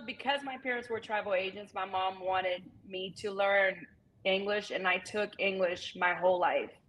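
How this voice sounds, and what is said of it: Brazilian accent in English. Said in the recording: “I had a very strong accent, a little bit more than I do now ... going from Brazil to southern Georgia”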